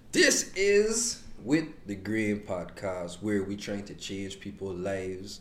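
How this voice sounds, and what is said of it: Virgin Islands accent. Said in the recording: “We're from the Virgin Islands... You can hear a better accent”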